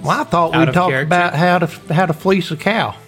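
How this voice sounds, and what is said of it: Thick put-on Southern accent. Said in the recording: “really thick Southern accents”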